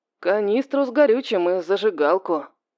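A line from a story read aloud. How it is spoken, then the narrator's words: Gloomy. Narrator (Russian): мрачно отозвался Юдин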